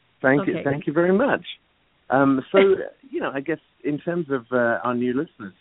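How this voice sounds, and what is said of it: Lilting British accent. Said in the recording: “he's got that beautiful lilting. He's got that British accent”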